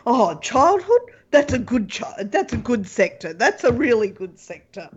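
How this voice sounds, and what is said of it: Imitates another person's voice. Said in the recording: “I think I've got Trump in my head too much ... How would Trump say”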